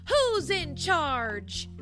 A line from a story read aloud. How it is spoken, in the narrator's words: Toast interrupted and yelled